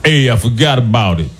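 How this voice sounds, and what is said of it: Put-on Italian man's voice. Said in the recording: “my impression of an Italian guy”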